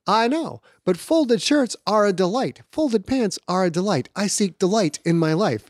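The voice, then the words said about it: Imitates another person's voice. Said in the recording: “Your Seinfeld impression is leave something to be desired. However, it sounds like a very good character voice for you.”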